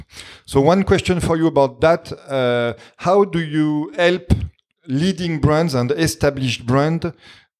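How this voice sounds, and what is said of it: French accent. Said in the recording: “my French accent shines for once”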